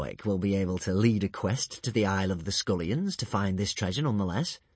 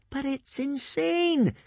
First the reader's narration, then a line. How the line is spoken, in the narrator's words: cried Hiccup